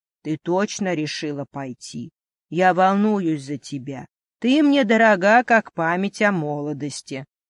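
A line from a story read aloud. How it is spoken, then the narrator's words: Plain. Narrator (Russian): сказал он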